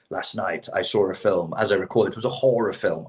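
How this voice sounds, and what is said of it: American-style fake British accent. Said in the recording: “the way Lonely Island would do a British accent... That's an American doing a British accent.”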